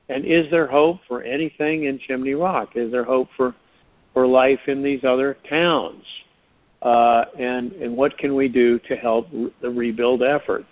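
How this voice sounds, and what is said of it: Frustrated tone of voice. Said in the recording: “I guess I'm frustrated, guys, and you can hear it in my voice”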